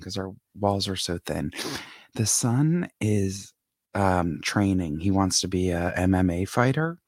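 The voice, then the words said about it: Whispering. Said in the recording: “here I am whispering”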